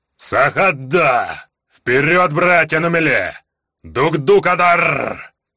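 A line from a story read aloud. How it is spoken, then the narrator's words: Roaring battle cry. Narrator (Russian): Взревел Гдар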